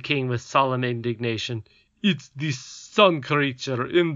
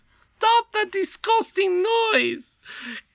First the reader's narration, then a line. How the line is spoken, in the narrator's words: cried the crown prince valiantly